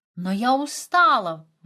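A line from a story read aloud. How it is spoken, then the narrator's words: Exclaiming. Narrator (Russian): воскликнет она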